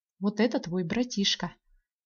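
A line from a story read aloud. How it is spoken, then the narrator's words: Plain, father. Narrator (Russian): сказал мне отец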